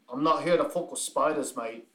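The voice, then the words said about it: Put-on Australian accent. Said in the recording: “I just heard the accent.”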